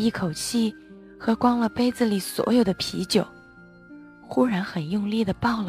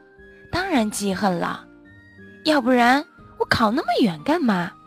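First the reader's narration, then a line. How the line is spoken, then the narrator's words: Half-joking. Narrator (Chinese): 我和他半开玩笑的说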